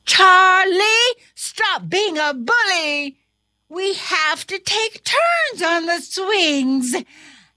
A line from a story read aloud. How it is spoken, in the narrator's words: The other students shouted